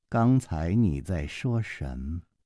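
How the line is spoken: Slow drawl. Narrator (Chinese): 公平慢吞吞地说

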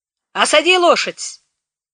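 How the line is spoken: Shout. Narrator (Russian): крикнул он

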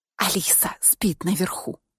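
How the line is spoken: Whisper. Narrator (Russian): прошептала я

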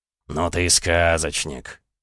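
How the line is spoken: Scoffing snort. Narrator (Russian): Репнин хмыкнул

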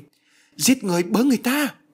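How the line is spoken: Panicked cry. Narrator (Vietnamese): Bà hoảng hốt kêu lên

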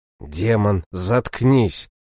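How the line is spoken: Inner growl. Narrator (Russian): мысленно прорычал я

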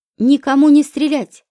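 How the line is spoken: Warning shout. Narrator (Russian): предостерегающе крикнул Никита

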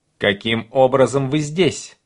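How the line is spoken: Stern question. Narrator (Russian): строго спрашиваю я Пита

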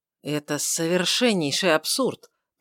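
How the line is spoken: Slightly hurt mutter. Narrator (Russian): пробормотал Лоример слегка уязвленным тоном

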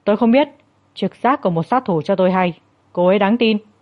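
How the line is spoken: Cold and stern. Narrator (Vietnamese): Trác Dư Hàng với vẻ mặt lạnh lùng nghiêm nghị, chỉ nói

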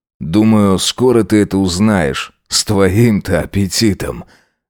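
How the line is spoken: Hoarse chuckle. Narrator (Russian): Джек хрипло усмехнулся

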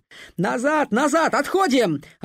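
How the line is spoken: Duckling yelling. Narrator (Russian): орал утенок

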